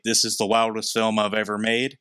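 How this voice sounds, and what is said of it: Put-on southern accent. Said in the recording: “I gave him a southern accent”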